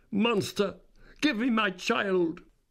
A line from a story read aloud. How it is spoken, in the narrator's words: She cried the same words in tones which wrung my heart